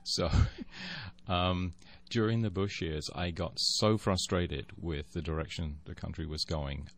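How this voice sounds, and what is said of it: Foreign accent. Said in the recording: “As you can probably tell from my accent, I'm not from here.”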